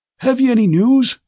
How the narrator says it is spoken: asked the high-pitched, wheezy voice of a very old man

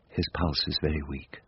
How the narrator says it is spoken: I heard Miss Kenton say softly

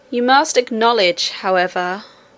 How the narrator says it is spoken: said the king with a little groan

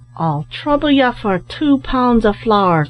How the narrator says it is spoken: cried Larry O'Neill

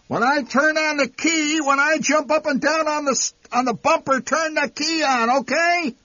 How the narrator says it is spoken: Enraged, the old man shouting

